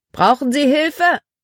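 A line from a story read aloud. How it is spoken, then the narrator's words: Called out. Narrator (German): Er rief einem Rothemd zu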